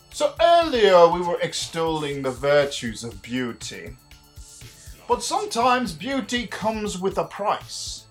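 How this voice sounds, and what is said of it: Mixed Irish, Scottish, Cockney put-on accent. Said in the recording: “apparently I'm using my accent again, and I'm not quite sure even what it is. It's a part Irish, part Scottish, part Cockney. Mainly, bunch of shit is what it is. It's really just a big fucking mess.”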